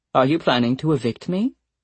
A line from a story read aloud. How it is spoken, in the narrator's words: Nora said calmly